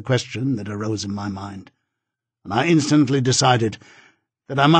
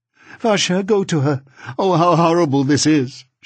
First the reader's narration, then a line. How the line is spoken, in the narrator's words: exclaimed